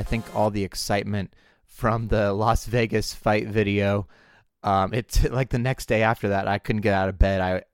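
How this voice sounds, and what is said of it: Weakened voice, recovering from illness. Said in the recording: “excuse my voice a little bit. I'm getting over an odd sort of cold ... my voice went away, and I'm still getting over it a little bit. So pardon my voice”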